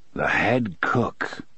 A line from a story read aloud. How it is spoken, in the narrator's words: his father said softly